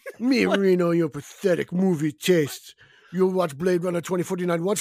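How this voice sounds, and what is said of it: Bad French Canadian accent, sounds Russian. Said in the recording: “your French Canadian accent. It's horrible. ... You sound Russian. ... It does. You sound kind of Russian, Russian, French, caveman.”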